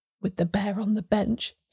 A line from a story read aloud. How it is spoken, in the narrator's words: said Hazeldene to Arbuthnot, in a whisper that carried well